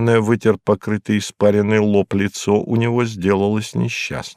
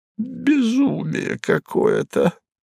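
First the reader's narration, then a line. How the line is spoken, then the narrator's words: Muttered. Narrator (Russian): пробормотал он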